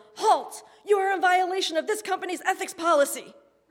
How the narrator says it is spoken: yelled

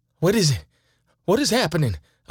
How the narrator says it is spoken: I frantically blurted out

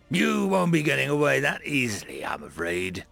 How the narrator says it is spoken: a new voice growled out from the intercom

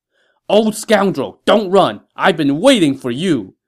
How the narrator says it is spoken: a man shouted

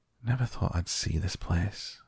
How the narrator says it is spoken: he said at last in a whisper

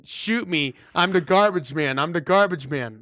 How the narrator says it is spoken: yelling again

